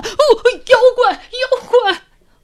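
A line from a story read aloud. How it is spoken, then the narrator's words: Frightened loud screaming. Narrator (Chinese): 几个小妖怪……吓得哇哇大喊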